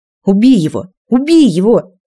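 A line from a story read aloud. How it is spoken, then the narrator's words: Savage crowd shouting. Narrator (Russian): кричали саларийцы, в которых проснулся инстинкт дикости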